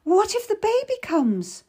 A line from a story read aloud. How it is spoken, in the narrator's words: I cried, panicking at her leaving me